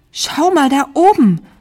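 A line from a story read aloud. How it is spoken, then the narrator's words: Called out. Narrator (German): rief Carla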